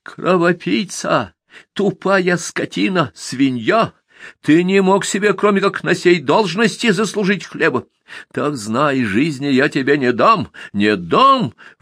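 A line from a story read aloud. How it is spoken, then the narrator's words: Shrill shriek. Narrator (Russian): вновь взвизгнул смотритель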